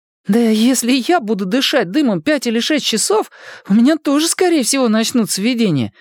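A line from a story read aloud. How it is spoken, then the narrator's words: Remarked. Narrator (Russian): заметил Майк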